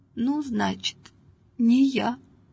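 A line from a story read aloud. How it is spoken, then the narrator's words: Quiet, shaken old woman. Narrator (Russian): Старушка присела, сама не своя, и тихо сказала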